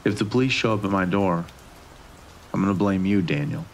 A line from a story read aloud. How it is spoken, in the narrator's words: he said calmly